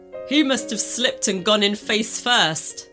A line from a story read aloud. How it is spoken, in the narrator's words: he laughed